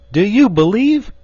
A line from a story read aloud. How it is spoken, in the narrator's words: he cried